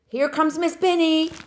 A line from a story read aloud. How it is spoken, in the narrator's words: someone called out